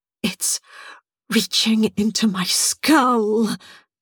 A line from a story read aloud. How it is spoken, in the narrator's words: moaned